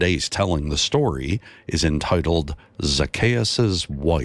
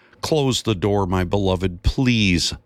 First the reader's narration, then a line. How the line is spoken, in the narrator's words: Zacchaeus' wife yelled in frustration